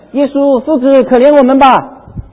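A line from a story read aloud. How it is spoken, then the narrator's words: Lepers shouting from afar. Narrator (Chinese): 有10个长大麻风的病人 远远的站着，就高声的喊着说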